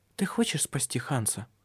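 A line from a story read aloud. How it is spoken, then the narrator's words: Whisper. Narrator (Russian): шепнула она ему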